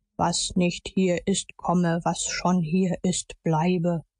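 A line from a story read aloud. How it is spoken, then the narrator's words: Solemn declamation. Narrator (German): Er deklamierte mit feierlicher Stimme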